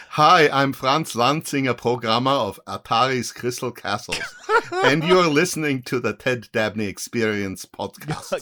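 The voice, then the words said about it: Imitates another person's accent. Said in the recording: “I can do it in an Arnold Schwarzenegger accent... Yes to Arnie.”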